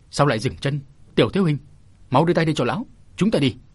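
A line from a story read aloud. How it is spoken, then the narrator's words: Heavy stern shout. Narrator (Vietnamese): tiếng quát nặng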